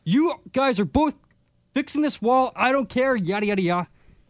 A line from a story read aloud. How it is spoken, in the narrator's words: he's quite furious, but he's yelling at us like